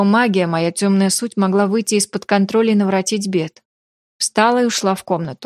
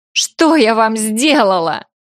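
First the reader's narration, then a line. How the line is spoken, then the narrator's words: Screaming. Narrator (Russian): Закричала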